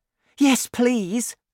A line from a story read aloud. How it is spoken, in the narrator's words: cried Sophie